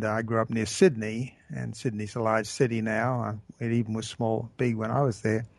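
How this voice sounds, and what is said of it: Australian accent. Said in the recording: “from my accent, you may be asking, well, where did this guy start out? Well, I started out in Australia”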